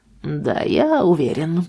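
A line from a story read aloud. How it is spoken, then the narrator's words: Grumbling mutter. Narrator (Russian): пробурчал Арт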